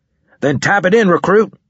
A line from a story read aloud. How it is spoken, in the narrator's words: snapped